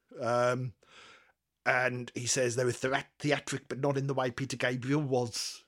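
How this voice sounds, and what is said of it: Poor put-on accent drifting South African. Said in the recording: “That's a terrible accent. ... That's kind of morphing into South African.”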